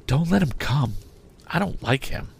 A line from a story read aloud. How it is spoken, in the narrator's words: Biddy said to me in a whisper